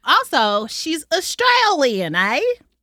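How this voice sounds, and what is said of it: Bad fake Australian accent. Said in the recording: “That was terrible. ... I was not expecting your Australian accent to be that bad.”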